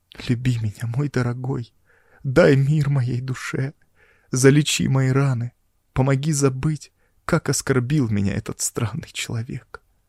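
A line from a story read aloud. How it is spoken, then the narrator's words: Sobbing plea. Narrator (Russian): она всхлипывая, умоляла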